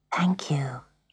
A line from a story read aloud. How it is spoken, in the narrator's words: whispered